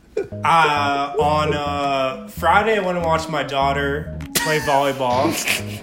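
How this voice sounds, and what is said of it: Michael Malone impression. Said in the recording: “This is Michael Malone endorsing the Colorado court. ... This is your impression.”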